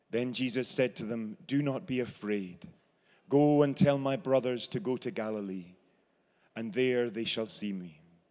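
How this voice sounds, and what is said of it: Scottish brogue. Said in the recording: “Having the gospel read in a Scottish brogue”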